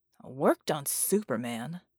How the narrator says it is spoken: John grumbled

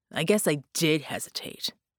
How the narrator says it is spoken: Red snarled

